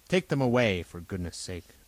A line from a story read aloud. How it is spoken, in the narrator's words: the inspector said crossly